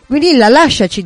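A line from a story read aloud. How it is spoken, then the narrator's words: Calm. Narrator (Italian): disse Maeve in tono calmo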